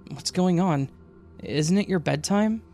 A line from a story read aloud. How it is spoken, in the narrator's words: Her voice fatigued as she asked